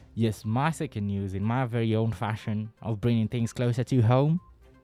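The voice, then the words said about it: Weak put-on Texan accent. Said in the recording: “with a bit of a Texan accent ... it wasn't a very good Texan accent”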